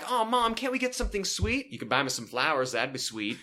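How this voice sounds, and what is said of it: Exaggerated put-on Southern US accent. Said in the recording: “I overdo it on the Jill Southern accent”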